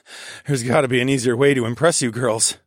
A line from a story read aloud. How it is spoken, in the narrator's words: I laughed